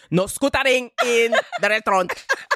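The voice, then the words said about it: Put-on unplaceable accent. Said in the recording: “I don't know where the accent was from.”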